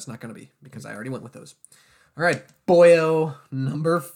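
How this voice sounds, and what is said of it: Usual voice. Nothing is said of it.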